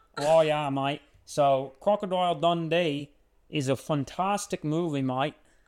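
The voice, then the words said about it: Shaky put-on Australian accent. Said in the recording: “we're going to practice the Australian accent some more ... it's hard to do under pressure ... it's clearly not going well right now”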